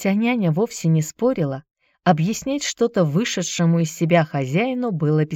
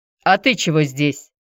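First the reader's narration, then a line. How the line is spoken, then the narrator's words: Stern question. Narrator (Russian): строго спросил он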